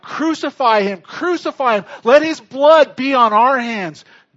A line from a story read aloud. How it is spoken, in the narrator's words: people who are screaming out